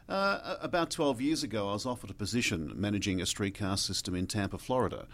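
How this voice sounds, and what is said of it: Australian accent. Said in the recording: “you have an amazing accent ... It's a southern hemisphere, so it's Australia.”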